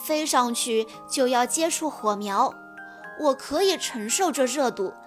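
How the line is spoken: Sighing. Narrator (Chinese): 刀锋叹了口气说

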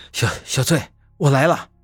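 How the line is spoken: Panting heavily. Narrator (Chinese): 我喘着粗气的说道

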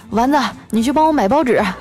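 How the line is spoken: Calling out. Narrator (Chinese): 冲他喊

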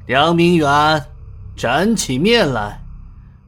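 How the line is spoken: Deep, grave voice. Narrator (Chinese): 阎王爷沉声问

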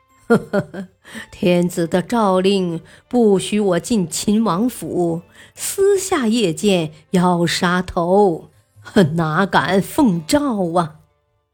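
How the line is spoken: Laughing. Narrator (Chinese): 房玄龄笑道

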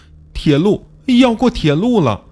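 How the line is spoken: Crying little boy. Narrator (Chinese): 小男孩哭道

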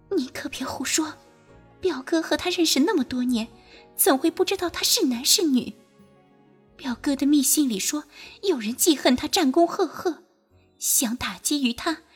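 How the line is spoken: Low scolding. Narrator (Chinese): 石兰妮低声斥道

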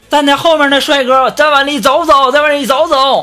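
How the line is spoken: Driver shouting. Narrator (Chinese): 司机就在那开始喊了，说

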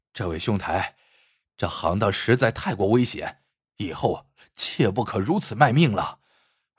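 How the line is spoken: Breathless urging. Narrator (Chinese): 丁原喘着气劝道

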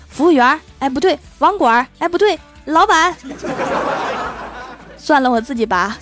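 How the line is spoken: Anxious shout. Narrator (Chinese): 着急的喊道

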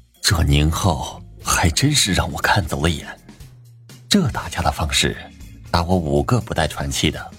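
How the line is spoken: Amazed exclamation. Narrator (Chinese): 孟老师不可思议的感叹道

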